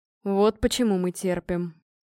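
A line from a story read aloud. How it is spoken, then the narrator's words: Gritted, barely restrained fury. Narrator (Russian): процедил Гром, и в его голосе звучала едва сдерживаемая ярость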